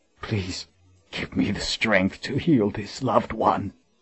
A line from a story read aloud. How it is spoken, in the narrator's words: he whispered in choking tears